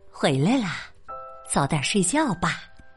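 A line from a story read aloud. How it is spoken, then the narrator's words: Soft motherly reply. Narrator (Chinese): 妈妈轻声回应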